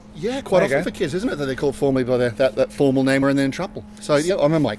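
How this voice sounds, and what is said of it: Mixed Australian and New Zealand accent. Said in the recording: “my slight antipodean antennae go up when I hear your accent... Is it Australian or Kiwi or a bit of both?... It is a bit of both.”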